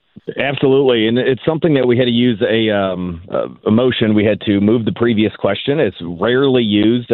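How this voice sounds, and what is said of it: Slightly hoarse voice. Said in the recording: “I'm a little hoarse as well after this great session we had. ... You're yelling at all these.”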